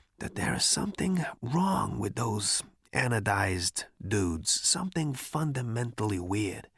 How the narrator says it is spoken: he whispered

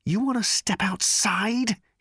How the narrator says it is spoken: he snarled at Thor

